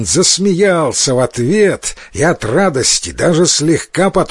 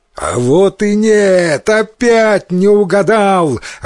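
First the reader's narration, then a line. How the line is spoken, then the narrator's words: Joyful demonic shout. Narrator (Russian): радостно закричал демон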